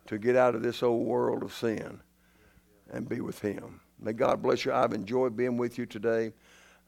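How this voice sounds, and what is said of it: Raspy voice. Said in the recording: “I apologize for my raspy voice, but that's just the way it is. You should have heard me Monday.”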